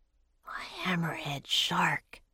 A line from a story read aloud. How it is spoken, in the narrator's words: he breathed